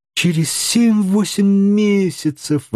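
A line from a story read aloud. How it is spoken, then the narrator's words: Exclamation. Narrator (Russian): воскликнул Паганель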